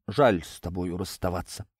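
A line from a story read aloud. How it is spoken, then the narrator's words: Sighing. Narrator (Russian): вздохнул Николай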